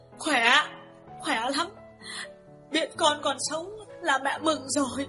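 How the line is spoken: Sniffling tearful old woman. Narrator (Vietnamese): Bà Lương sụt sùi mãi mới trả lời được

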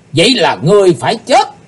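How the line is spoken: Loud shout, many voices. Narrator (Vietnamese): 12 vị sứ giả Hải Âu quát to

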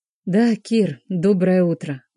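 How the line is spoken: Gentle. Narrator (Russian): говорю ласково

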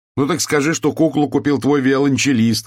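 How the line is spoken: Shout. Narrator (Russian): крикнул я

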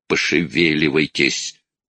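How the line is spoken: Irritated repetition. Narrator (Russian): раздраженно повторил Перри

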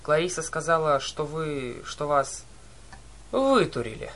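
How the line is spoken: Cheerful. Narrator (Russian): Весело подхватил Херон

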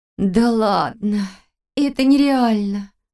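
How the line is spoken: Moan. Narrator (Russian): простонала Валерия, уже не боясь, что ее снова назовут нытиком

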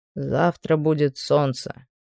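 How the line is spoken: Quiet male voice behind. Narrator (Russian): негромко сказал мужчина у меня за спиной

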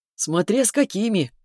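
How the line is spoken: Chuckling. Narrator (Russian): хохотнул блондин

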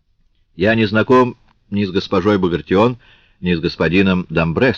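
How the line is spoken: Plain. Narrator (Russian): сказал он

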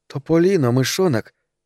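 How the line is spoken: Exclaiming. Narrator (Russian): воскликнула она

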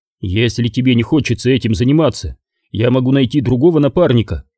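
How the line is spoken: Plain. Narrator (Russian): сказал Куайгон

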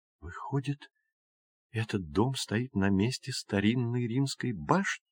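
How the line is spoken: Whisper. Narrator (Russian): прошептала Джулия

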